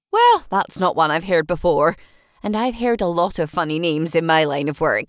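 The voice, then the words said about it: Strong Scottish accent. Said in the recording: “her Scottish accent was so strong I had to strain to understand a single word she said”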